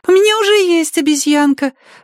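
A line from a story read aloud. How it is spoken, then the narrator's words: Wailing yell from behind. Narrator (Russian): завопила Люми сзади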